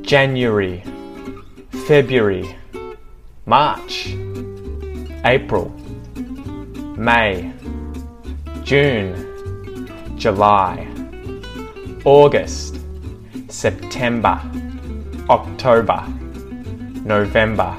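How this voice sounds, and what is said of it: Australian accent. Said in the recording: “how to pronounce the months with an Australian accent”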